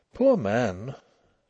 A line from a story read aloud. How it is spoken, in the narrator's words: Nellie murmured, trying to feel sad for a change, and not succeeding